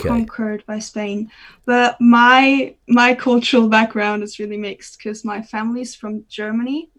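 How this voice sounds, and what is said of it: Non-native English accent, not quite Spanish. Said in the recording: “I'm detecting some kind of accent that's not really Spanish”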